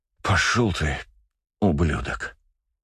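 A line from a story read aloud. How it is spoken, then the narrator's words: Angry exhaled words. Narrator (Russian): зло выдохнул агент Такс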